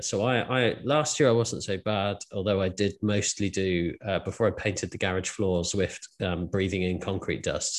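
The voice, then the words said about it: Congested, slightly breathless snuffly voice. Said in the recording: “You've probably heard me snuffling away today ... as you can probably hear now, I'm slightly out of breath talking because I'm just a bit congested with hay fever”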